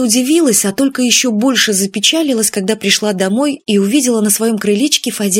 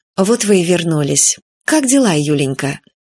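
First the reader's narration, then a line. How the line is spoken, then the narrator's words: Affectionate, gentle. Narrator (Russian): Виктория Федоровна ласково сказала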